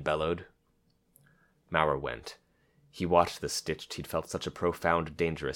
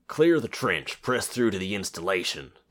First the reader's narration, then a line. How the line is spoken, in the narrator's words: the captain bellowed